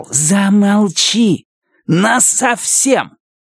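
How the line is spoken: Hissing. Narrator (Russian): прошипел

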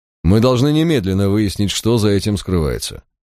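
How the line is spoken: Commanding, peremptory tone. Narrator (Russian): непререкаемым тоном заявил Мальверер

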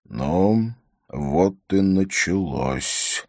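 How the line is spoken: Glum mutter. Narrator (Russian): уныло пробормотал он

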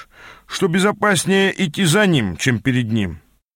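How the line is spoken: Grumbling. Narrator (Russian): проворчал вернувшийся к нам кореш

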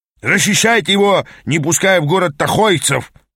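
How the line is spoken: Roar. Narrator (Russian): проревел Аас

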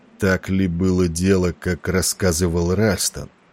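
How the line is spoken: Hoarse, almost anxious voice. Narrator (Russian): Несмотря на усилия Валери казаться спокойным, голос его прозвучал хрипло, почти тревожно

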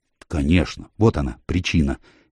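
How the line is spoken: Quiet. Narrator (Russian): негромко сказал Фок

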